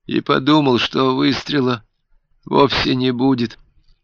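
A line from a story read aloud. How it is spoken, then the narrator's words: Weak faint voice. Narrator (Russian): слабым голосом сказал Альберт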